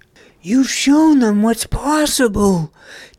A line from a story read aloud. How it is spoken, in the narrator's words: cheerfully praised Nug